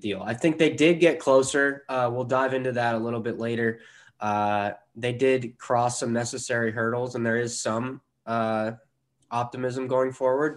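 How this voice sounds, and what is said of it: Sick, rough-sounding voice. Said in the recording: “I am currently very under the weather right now... I'm sorry if my voice sounds awful or more awful than normal”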